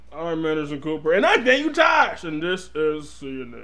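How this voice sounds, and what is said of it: Imitates a TV announcer voice. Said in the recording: “Wasn't it James Earl Jones that used to do that voice?”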